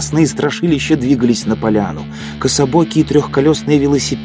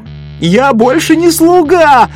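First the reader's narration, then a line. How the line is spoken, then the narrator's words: Yelling from a tree. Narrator (Russian): орал кто-то с акации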